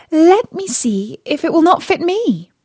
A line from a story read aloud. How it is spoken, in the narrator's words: Cinderella said to them laughing